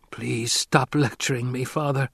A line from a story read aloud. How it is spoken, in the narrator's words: Kynes whispered